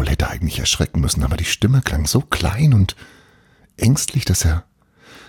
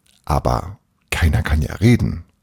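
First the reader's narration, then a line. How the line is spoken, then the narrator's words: Plain. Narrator (German): sagte Paul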